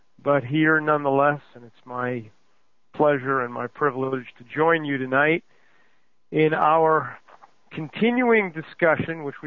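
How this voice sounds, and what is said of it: Hoarse voice. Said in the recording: “a little bit hoarse, a little bit worse for the wear”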